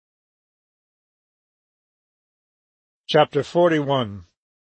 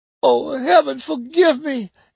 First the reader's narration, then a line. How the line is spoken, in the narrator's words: Aunt Maggie moaned